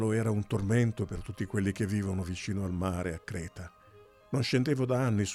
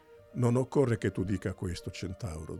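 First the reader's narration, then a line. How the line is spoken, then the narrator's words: Plain. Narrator (Italian): disse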